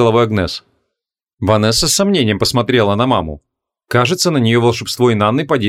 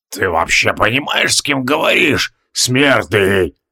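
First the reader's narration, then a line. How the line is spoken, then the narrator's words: Through gritted teeth, barely restrained. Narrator (Russian): процедил Тивилдорм, едва сдерживаясь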